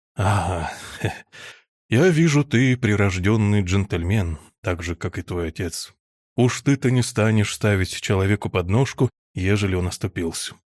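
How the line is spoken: Uncle sighing. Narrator (Russian): вздохнул дядя

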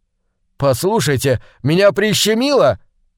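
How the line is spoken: Shout. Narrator (Russian): крикнул

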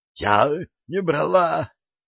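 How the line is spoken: Hoarse rasp. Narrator (Russian): хрипела Глория

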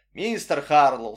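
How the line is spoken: Plain. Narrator (Russian): сказал Вин

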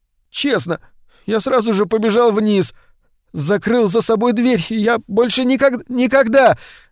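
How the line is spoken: Choking, shouting. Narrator (Russian): захлебываясь, закричал Эдвин

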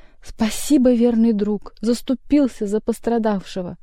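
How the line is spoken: Tragic exclamation. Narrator (Russian): бегемот воскликнул трагически

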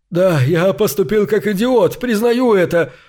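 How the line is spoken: Choked sob. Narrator (Russian): Он сдавленно всхлипнул

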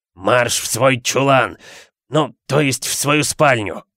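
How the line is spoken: Hoarse wheeze. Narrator (Russian): Просипел он, обращаясь к Гарри

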